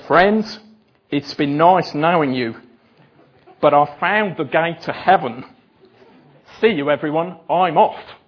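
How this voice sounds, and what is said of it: Poor put-on Australian accent. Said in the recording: “This is my attempt at the Australian accent. ... BJ gave me 1 out of 10 for my Australian accent this morning. 0. ... It's got worse as the day has gone on.”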